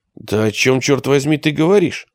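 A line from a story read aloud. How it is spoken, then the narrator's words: Breathless exhale. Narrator (Russian): выдохнула Алиса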